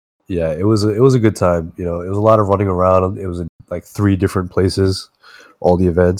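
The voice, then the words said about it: Sick-sounding voice. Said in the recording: “I actually am very sick now as a result of that weekend ... You can probably hear it in my voice.”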